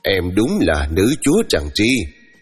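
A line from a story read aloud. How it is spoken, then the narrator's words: Teacher laughing. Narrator (Vietnamese): cô giáo tôi đã bật cười bảo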